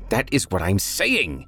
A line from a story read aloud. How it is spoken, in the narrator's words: Toby shrieked